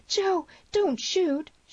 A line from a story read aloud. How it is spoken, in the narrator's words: screamed